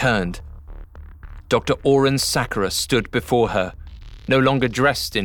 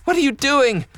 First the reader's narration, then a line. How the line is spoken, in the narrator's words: Natty cried out